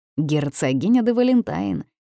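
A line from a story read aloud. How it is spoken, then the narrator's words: Snorting chuckle. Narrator (Russian): хмыкнул Бернард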